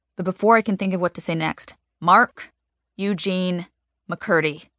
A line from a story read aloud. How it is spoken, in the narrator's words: Mom says, her voice rising